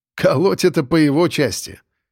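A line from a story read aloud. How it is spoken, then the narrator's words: Smirking grunt. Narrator (Russian): хмыкнул следак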